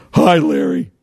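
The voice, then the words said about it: Hoarse, deadpan imitated voice. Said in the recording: “he talked like this, kind of almost like my Ron Santo impersonation... He had this hoarse voice... totally deadpan”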